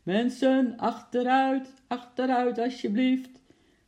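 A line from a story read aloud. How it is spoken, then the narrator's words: Policeman shouting. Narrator (Dutch): riep de agent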